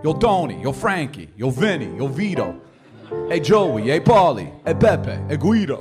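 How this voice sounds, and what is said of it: Put-on gangster-style accent. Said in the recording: “my accent is really ... good ... Really good”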